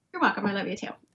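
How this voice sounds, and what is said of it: Talking very fast. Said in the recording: “That's why I'm talking so fast, because I have so much coffee.”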